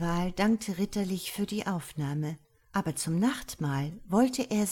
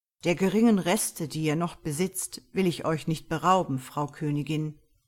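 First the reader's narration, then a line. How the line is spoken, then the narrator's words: Plain. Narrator (German): sagte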